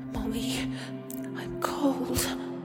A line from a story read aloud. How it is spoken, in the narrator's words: he whispered through chattering teeth